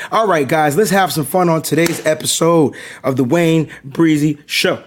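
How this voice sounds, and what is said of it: Strained, fading, worn-out voice. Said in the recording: “my voice is on its way out. I got a little bit of more voice ... A little bit more voice.”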